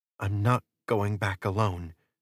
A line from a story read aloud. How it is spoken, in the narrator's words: she whispered